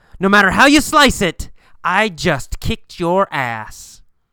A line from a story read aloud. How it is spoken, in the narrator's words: Jim wins the fight and yells